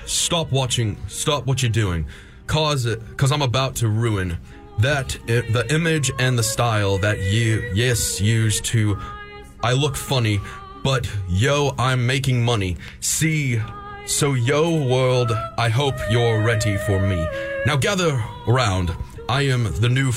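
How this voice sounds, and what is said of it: Rusty put-on British accent. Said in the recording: “I want this in a British accent ... I'm trying a British accent. ... it's just ... Rusty.”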